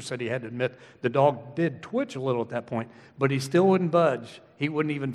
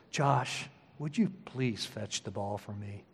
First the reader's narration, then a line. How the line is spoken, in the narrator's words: And she said in a very sultry, soft voice